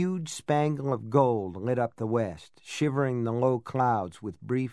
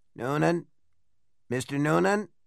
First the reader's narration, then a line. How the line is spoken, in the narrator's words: a man's raspy voice, an elderly voice, but not Bill Dean, said